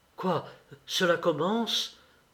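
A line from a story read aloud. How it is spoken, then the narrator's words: Frightened exclamation. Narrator (French): s'écria-t-il effrayé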